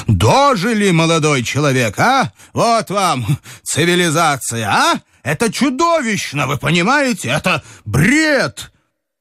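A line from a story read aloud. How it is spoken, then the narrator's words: Yelling in face. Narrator (Russian): Николай Иванович заорал ему в лицо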